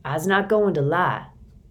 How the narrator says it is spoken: old George Cooper says, his voice low and serious

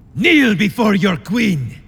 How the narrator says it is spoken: he roared

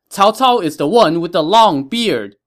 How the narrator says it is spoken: he heard them shout again

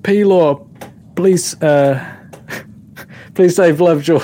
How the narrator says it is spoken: yell out

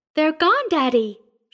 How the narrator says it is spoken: she said brightly

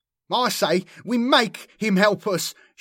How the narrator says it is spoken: shouted Menavon

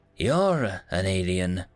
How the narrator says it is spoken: chuckled and responded

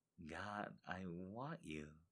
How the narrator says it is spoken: she whispered

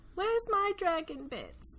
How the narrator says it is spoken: The Duke whines

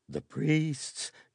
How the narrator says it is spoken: gasped a short, broad-shouldered noble

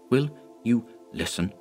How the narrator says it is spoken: he whispered

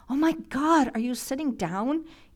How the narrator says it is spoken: Andrea cried from the other end

